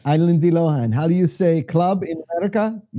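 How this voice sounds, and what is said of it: Fake Greek accent impression. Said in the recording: “In her new Greek, fake Greek accent.”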